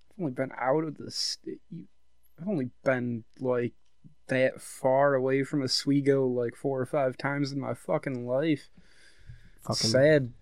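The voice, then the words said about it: Central New York accent, slight drawl. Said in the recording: “your accent is a giveaway... It's an Oswego accent... like the diehard Central New York accent... Yeah, it's got that southern drawl.”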